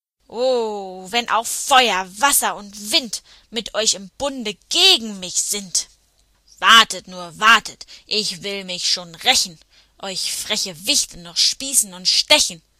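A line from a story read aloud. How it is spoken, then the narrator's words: Furious hiss, straining. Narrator (German): So fauchte er und zerrte dabei wütend an dem Baum, unter dem er festgeklemmt lag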